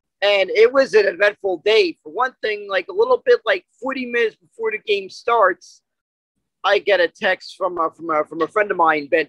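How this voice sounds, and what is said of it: Hoarse, strained lost voice. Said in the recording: “by the sound of my voice, you can tell I probably lost my voice after that game”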